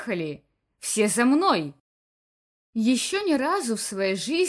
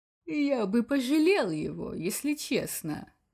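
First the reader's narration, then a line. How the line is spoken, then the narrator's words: Soft purring in ear. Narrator (Russian): Тихо промурлыкал Бакс на ухо комиссару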